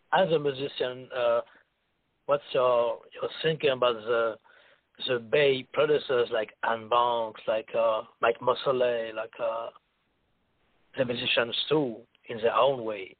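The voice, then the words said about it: French accent. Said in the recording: “you sound like you're French.”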